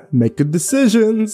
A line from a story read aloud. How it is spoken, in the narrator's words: he laughed